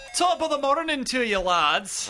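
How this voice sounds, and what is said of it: Put-on Irish accent. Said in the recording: “I'm allowed to do that voice because my last name is ... I am 25% Irish as well”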